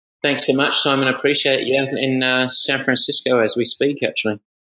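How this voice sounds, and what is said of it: Slight British accent. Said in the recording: “a sort of a hint of the UK accent,”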